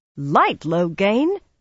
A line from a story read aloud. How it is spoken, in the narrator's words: the pretty boy exclaimed